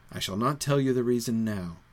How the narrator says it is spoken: said Trotter quietly

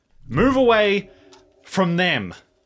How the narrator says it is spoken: he's going to shout out and say

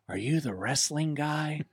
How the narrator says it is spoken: the flight attendant he whispers in my ear

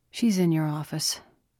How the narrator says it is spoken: Chen said, his voice tired

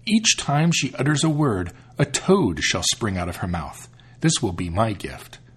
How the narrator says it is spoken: said the second

